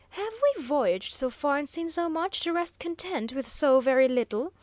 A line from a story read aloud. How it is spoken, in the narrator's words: exclaimed the professor, hardly as precise of speech as under ordinary conditions